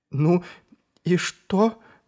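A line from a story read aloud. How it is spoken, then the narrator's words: Trembling question. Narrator (Russian): дрожащим голосом справилась Шелли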